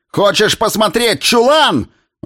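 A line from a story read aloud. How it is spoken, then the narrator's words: Mother roaring. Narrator (Russian): взревела мать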